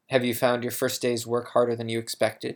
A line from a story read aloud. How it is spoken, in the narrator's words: he asked